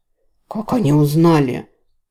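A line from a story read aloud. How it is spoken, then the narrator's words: Hiss. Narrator (Russian): прошипел Рос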